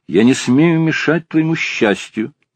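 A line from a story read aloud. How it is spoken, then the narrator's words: Plain. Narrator (Russian): говорит он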